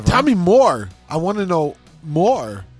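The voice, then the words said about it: Christopher Walken impression. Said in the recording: “All right, Christopher Walken.”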